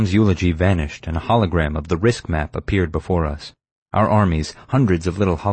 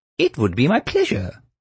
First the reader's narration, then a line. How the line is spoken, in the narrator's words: the computer squealed